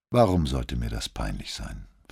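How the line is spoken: Doctor asking calmly. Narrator (German): fragte der Doktor ruhig

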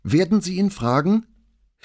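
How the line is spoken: Calling out. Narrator (German): sie rief Paola zu

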